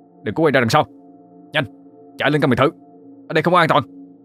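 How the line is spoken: Urgent loud shout. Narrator (Vietnamese): Sơn ngay lập tức hét lớn

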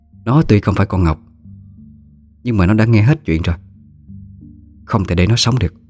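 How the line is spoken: Cold, sneering. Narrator (Vietnamese): Bà Tâm nhếch môi cười mà lạnh lùng nói

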